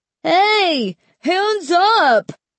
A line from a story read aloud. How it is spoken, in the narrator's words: Mark shouted desperately